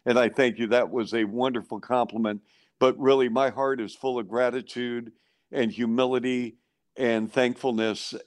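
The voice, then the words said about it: Emotional, moved voice. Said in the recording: “I'm getting emotional now, and I very seldom do this.”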